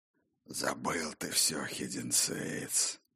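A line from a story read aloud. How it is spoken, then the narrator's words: Hoarse rasp. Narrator (Russian): хрипел Бран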